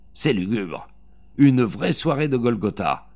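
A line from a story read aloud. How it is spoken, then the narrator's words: Grumbling. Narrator (French): grogna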